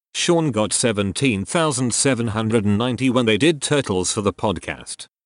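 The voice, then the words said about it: Robot voice. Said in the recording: “robot voice”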